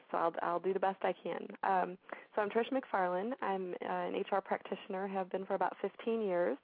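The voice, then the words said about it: Hoarse, fading voice. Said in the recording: “pardon my voice. I'm actually losing my voice,”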